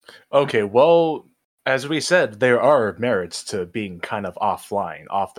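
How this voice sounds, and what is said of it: Usual voice. Nothing is said of it.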